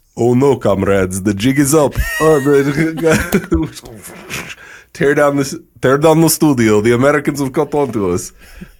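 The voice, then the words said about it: Exaggerated bad Russian accent. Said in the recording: “in the worst Russian accent you've ever heard ... Your little accent with the hand motions was so good”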